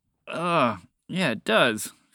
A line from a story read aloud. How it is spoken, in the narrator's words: Phoebe groaned